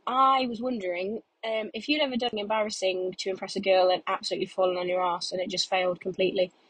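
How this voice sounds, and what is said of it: Congested voice from a cold. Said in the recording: “I've got a bit of a cold.”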